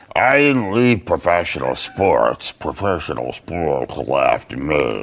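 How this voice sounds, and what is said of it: Impression of another person. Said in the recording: “great impression of Jeffy”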